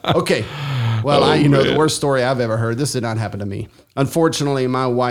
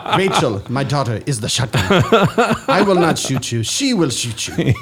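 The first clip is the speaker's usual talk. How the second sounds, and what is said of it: Impression of a movie character's accent. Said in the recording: “You sound Asian. ... You sound like Karate Kid ... You've got one accent. You've got one impression.”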